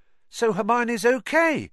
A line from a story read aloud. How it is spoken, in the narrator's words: said Ron, brightly